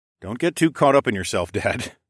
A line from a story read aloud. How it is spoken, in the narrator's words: I chuckled